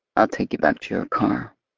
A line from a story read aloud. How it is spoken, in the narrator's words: he murmurs, his mouth pressed to the crown of my head